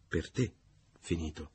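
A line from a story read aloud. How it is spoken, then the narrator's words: Low female voice. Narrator (Italian): ella disse a voce bassa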